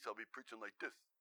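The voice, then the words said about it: Put-on New York accent. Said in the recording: “If I get around a part of the country where they've got a strong accent, I'll pick it up... If I'm preaching in New York, by the time I'm done a few weeks”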